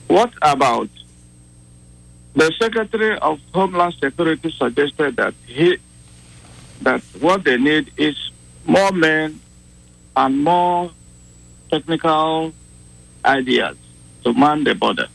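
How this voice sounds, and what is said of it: Noticeable accent of unclear origin. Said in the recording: “I like his accent. I don't know where it's from”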